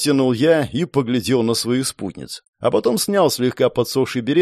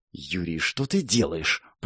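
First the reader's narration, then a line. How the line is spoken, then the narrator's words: Whisper. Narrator (Russian): прошептала Катарина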